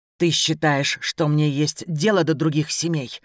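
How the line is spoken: Through gritted teeth. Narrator (Russian): процедил Сима

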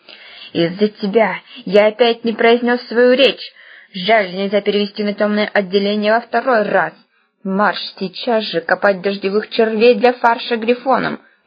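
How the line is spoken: Hissing head teacher. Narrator (Russian): прошипел завуч

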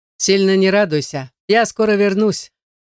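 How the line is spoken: Scoffing. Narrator (Russian): куратор хмыкнул

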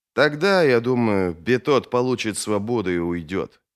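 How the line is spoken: Sad. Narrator (Russian): произнес Вест грустно

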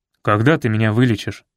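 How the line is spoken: Stern question. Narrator (Russian): строго спросил он у Танечки

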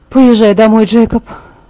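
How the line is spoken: Sighing. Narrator (Russian): Вздохнув, я сказала

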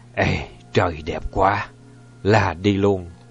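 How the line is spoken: Muttering. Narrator (Vietnamese): ông Trùm chỉ lẩm bẩm có mỗi một câu

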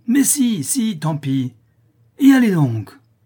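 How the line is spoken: Fierce cry. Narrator (French): s'écria la féroce Anastasie

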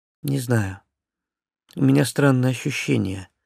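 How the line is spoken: Sighing owl. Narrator (Russian): вздохнула сова

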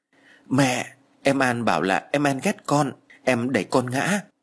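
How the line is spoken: Tearful whimpering child. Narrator (Vietnamese): con gái của tôi mếu máo nói

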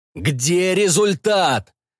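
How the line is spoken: Ominous question. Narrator (Russian): зловещим голосом спрашивал лейтенант Бридж

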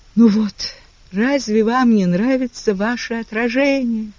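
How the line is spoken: Exclaiming, then loud wailing. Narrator (Russian): воскликнула Гая фразу из роли и заревела в полный голос

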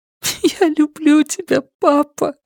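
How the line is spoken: Sobbing. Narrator (Russian): всхлипывая проговорила Люми

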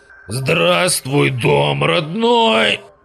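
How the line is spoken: Hoarse distorted croak. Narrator (Russian): Прохрипел я искореженным голосом на манер бороды из нашей Раши

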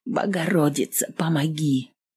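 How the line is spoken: Whispered. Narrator (Russian): шептала одно

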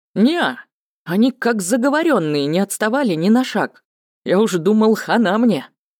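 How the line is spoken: Laughing. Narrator (Russian): засмеялся Скарт

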